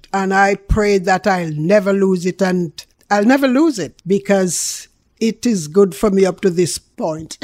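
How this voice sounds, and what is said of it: Strong Jamaican accent. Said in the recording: “it's Jamaican lady ... I appreciate my accent ... how harsh your accent was”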